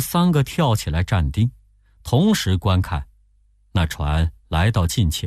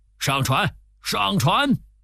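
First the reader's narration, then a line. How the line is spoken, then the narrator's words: Calling out. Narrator (Chinese): 又叫着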